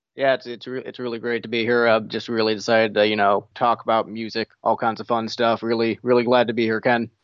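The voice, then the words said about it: Deliberately deepened low voice. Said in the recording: “Your voice is deeper than that.”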